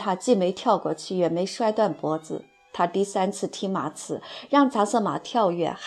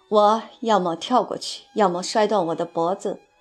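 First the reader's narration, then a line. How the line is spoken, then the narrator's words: Through clenched teeth. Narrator (Chinese): 爱德华紧咬牙关说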